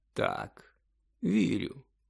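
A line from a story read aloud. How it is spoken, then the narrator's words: Calm confirmation. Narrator (Ukrainian): спокійно підтвердив Дамблдор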